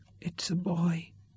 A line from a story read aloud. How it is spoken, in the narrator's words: said Katrina softly